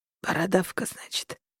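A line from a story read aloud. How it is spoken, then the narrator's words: Weak wheeze. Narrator (Russian): слабо прохрипел он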